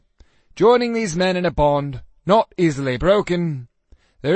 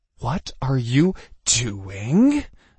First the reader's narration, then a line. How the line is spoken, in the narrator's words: I hissed at him